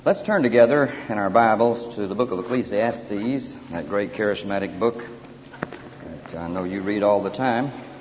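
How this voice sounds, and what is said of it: Strong regional accent, drawn-out speech. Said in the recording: “I trust that you can learn to understand my accent before the evening is over with ... We draw it out long enough”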